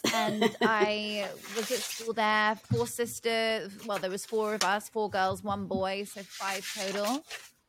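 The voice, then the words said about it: English accent. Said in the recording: “I grew up in Oxfordshire, which is in the countryside in England, in the UK. You can probably tell by the accent.”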